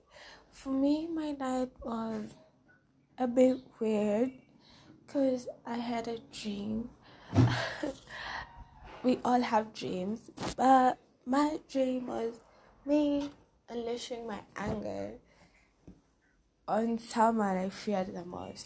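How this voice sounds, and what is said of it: Rusty, slightly hoarse morning voice. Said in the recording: “my voice is a little bit rusty”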